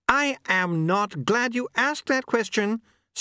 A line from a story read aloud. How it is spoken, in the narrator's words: screamed Mr